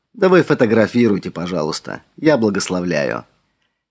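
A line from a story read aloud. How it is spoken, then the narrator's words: Soft. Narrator (Russian): мягко сказал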